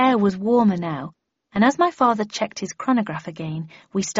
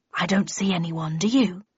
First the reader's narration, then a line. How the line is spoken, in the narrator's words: he hissed